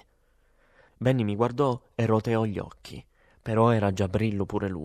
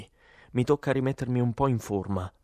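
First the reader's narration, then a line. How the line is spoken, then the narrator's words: Plain. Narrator (Italian): disse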